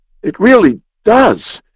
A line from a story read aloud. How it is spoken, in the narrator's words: he cried in soft amaze